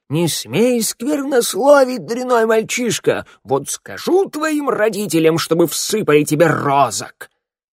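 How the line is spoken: Shouting. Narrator (Russian): голова Мороя и закричала

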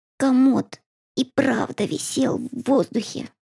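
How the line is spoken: Whispered. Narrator (Russian): прошептал он

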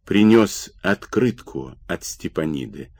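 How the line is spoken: Quiet. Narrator (Russian): тихо сказал Сергиенко

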